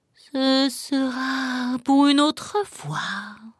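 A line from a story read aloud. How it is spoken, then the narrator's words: Sighing. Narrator (French): soupira le chat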